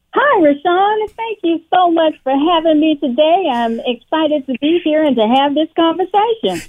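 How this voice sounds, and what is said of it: Slight Southern American twang. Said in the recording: “You got that little Southern twang working there”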